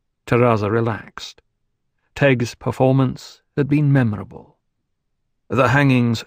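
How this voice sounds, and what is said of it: Usual voice. Nothing is said of it.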